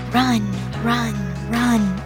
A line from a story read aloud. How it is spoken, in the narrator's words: a voice whispers